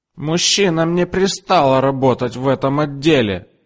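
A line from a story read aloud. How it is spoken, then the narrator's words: Shout. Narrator (Russian): закричала она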